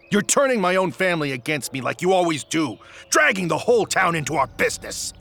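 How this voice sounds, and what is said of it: Angry loud shouting. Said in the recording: “You're shouting so loud the whole county can hear.”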